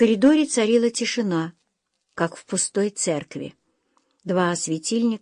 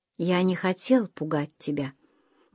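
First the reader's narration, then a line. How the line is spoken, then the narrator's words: Tender. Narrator (Russian): нежно произнес Уэсли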